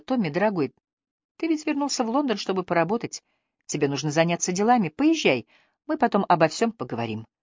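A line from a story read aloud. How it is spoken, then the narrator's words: Soft. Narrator (Russian): Хелен мягко сказала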